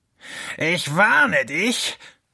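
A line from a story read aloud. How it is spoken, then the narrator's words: Hissing fox. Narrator (German): fauchte der Fuchs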